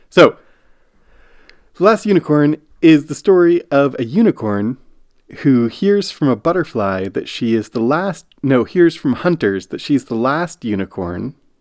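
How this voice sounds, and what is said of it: Sick-sounding voice, recovering from illness. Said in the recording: “I was getting sick as we were watching this movie ... I'm recovering now from this sickness, so you may hear that in my voice”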